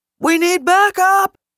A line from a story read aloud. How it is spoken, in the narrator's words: called out